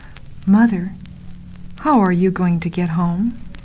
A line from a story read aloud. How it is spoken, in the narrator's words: said softly